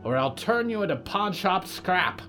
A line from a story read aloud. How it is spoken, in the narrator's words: yelled